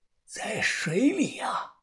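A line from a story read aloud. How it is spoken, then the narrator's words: Old man, quiet. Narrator (Chinese): 老头小声的说道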